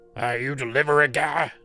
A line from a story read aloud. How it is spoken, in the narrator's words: he barked at me